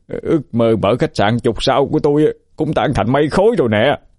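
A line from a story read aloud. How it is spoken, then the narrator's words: Wailing. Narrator (Vietnamese): Quân gào lên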